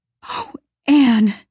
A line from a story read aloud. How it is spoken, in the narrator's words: gasped Diana, weeping with relief and delight